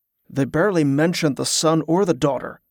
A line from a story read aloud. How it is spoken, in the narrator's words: the guard grumbled, genuinely offended